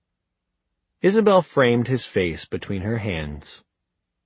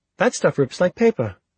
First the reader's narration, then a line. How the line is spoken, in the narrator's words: She exclaimed